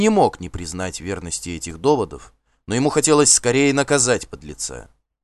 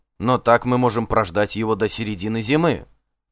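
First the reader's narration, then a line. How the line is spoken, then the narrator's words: Plain. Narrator (Russian): ответил Хьорливу Асфальд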